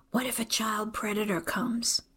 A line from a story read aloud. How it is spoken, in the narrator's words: She leans closer and whispers